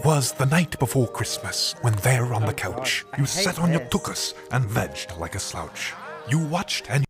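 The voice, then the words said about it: Wet voice with fake accent. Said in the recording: “It sounds horrible. ... It's a very wet voice. ... very wet voice. ... I think he's doing a fake accent”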